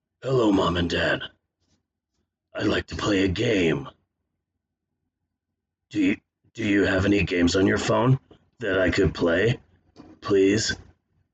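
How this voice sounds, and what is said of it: Jigsaw voice as a young child. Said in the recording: “my impression of Jigsaw if he was an eight year old child”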